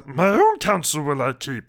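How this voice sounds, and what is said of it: Poor Yoda character voice. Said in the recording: “terrible Yoda impersonation”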